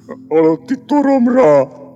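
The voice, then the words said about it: Even more sepulchral, gloomy voice. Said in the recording (Hungarian): “Mondta még síribb hangon”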